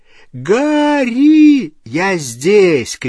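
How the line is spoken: Shout. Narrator (Russian): крикнул он

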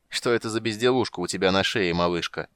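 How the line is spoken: Giant's short laugh. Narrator (Russian): хохотнул великан

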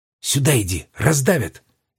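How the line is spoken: Loud whisper. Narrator (Russian): громко шепнула она

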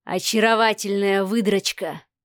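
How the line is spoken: Hoarse mutter. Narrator (Russian): хрипло пробормотал Савва

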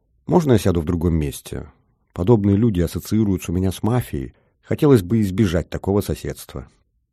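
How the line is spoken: Quiet words into ear. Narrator (Russian): тихо сказал в ухо Веронике де Охеда

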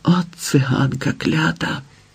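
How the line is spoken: Spiteful whisper. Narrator (Ukrainian): прошепотіла недобре

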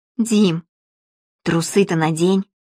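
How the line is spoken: Whispered prompt. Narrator (Russian): шепотом подсказала она ему

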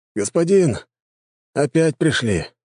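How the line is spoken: Weary report, guards. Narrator (Russian): устало доложили мне гвардейцы

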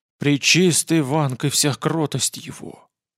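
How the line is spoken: Giant's breathy exclamation. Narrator (Russian): выдохнул гигант

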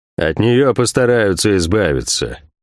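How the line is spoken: Gloomy. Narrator (Russian): мрачно произнес Кивилл де Монтак

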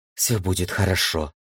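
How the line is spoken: Whisper in the ear. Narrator (Russian): шепнула она ей на ушко

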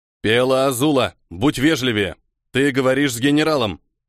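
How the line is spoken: Thunderous steely voice. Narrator (Russian): прогрохотал стальным голосом Йокон Майер

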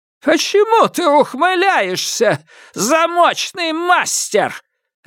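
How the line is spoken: Barked. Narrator (Russian): рявкнула Хирана

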